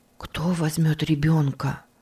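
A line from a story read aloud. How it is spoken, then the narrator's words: Whisper. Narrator (Russian): прошептал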